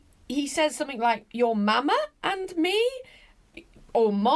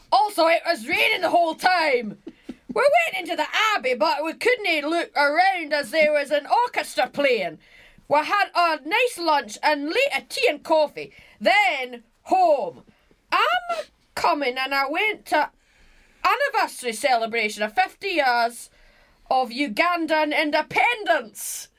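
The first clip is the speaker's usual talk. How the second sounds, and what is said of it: Imitating a relative's accent. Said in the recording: “I should really do it in his accent.”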